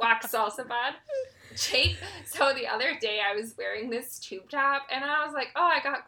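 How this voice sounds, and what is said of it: Usual voice. Nothing is said of it.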